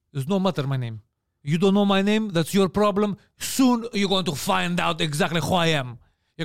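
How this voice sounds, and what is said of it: Put-on Arab accent. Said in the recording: “an Arab accent”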